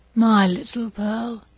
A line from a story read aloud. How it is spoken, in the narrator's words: said he feebly, and there was a sweet and gentle smile over his face, as of a spirit sinking into deep repose